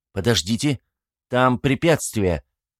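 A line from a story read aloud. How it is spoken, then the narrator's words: Shouted. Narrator (Russian): крикнул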